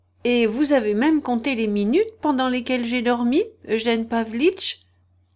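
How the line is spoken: Mocking. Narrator (French): dit-il d'un ton moqueur

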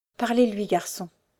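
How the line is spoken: Trembling voice. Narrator (French): lui dit-elle d'une voix tremblante

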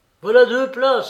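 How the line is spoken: Exclaimed. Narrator (French): s'écria-t-il

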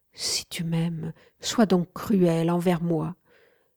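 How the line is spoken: Imploring. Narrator (French): implorai-je

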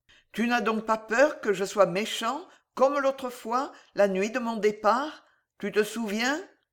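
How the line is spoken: Softly. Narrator (French): Et Richard, doucement

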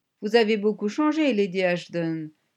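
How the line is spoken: Grumbled. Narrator (French): grogna Chapowski

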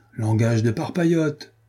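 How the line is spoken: Exclaimed. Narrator (French): s'écria Renaud

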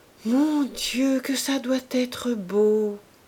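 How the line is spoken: Sighing murmur. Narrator (French): laissa échapper Madame Coreur avec un soupir

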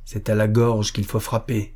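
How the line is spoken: Dark, somber voice. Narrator (French): dit Magnus d'une voix sombre

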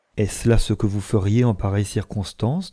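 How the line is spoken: Plain. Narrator (French): demanda-t-elle

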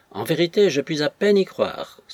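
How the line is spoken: Sighing. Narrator (French): soupira la femme de chambre

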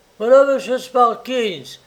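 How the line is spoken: Exclaimed. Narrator (French): s'écria Tom

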